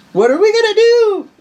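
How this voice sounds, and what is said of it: Exaggerated video game fighter voice. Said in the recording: “Why am I talking like a Street Fighter character?”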